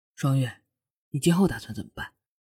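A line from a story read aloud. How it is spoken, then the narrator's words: Gentle. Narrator (Chinese): 轩辕温柔的说道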